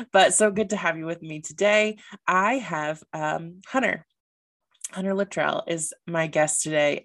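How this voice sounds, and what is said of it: Voice sounds affected by a cold. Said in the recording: “please do excuse my voice. I am getting over a little bit of a cold ... people's voices when they were having a cold sounded kind of sexy”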